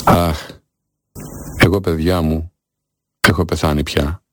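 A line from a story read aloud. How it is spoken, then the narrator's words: Sighing. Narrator (Greek): Αναστέναξε και είπε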